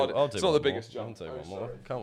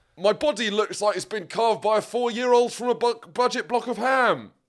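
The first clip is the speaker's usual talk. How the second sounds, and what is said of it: Put-on English accent. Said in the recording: “it's an English accent, certainly.”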